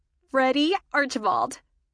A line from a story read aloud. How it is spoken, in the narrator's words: Michelle exclaimed